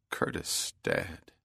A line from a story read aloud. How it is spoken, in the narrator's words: Bell muttered